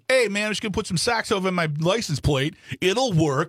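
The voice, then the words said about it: Put-on regional accent. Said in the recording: “I'll do the accent”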